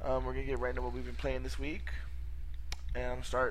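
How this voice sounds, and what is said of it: Sick, strained voice. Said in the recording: “Sorry about my voice. ... I'm sick.”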